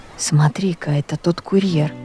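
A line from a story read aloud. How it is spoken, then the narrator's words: Quiet. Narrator (Russian): тихо сказал Сережа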